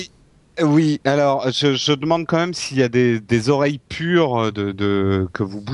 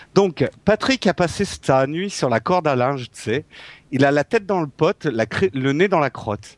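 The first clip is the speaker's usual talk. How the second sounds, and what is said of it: Put-on Québécois French accent. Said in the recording (French): “j'ai un accent québécois, je ne sais pas du tout l'imiter”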